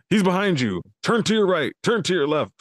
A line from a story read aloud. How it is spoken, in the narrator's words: someone yelling in your ear